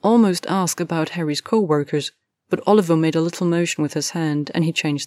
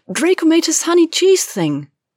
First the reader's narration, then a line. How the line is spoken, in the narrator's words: Hermione said excitedly